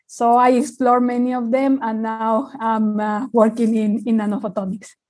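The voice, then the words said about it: Non-Australian foreign accent. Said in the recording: “you don't sound Australian to me ... I don't have at all the Australian accent.”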